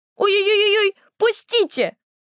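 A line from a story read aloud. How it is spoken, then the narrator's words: Girl squealing. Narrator (Russian): запищала девочка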